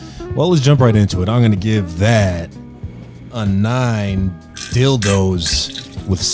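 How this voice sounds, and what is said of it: Usual voice. Nothing is said of it.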